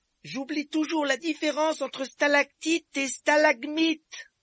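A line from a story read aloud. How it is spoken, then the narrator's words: Shouting over rattling noise. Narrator (French): cria Harry pour couvrir le bruit du wagonnet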